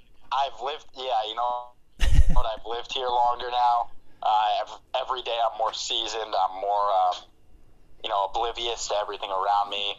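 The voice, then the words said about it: New York accent. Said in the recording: “You have a different accent, though, now... now it sounds like New York... you still sound like you have a New York accent. Well, maybe Connecticut or something.”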